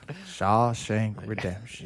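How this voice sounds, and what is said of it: Morgan Freeman impression. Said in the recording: “I've been trying to do my Morgan Freeman accent ... He's getting pretty good at it ... it actually wasn't bad for a half-hearted attempt ... Perfect.”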